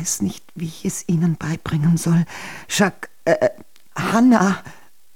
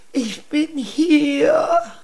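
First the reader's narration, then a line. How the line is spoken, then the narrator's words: Wounded woman groaning. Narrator (German): stöhnte die Königin, die voller Blut war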